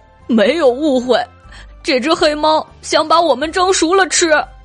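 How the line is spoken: Crabs crying. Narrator (Chinese): 螃蟹们哭道

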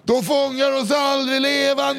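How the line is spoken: Shouted. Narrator (Swedish): ropar Lenny

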